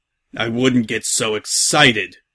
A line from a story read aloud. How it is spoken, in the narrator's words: Salt growled